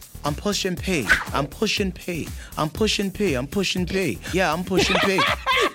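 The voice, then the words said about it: Put-on British accent. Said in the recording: “we're going to do it in a British accent”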